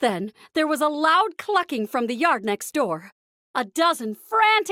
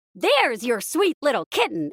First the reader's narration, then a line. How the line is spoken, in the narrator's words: exclaimed Mickey